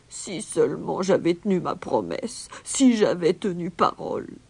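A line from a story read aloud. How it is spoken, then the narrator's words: Moaning. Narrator (French): gémissait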